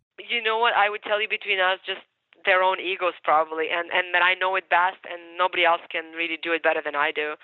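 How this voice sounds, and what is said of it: Ukrainian accent in English. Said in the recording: “And you have an accent. ... English, you can hear my accent, right? But, you know, but I'm Ukrainian by birth.”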